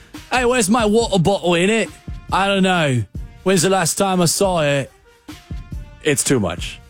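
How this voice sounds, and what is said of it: Bad put-on British accent. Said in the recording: “the bad British accent”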